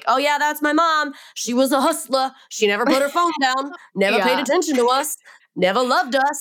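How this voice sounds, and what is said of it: Put-on accent. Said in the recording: “I don't know where that accent came from”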